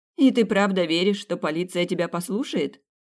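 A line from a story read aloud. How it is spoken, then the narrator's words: Dismissive exclamation. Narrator (Russian): пренебрежительно воскликнула Грит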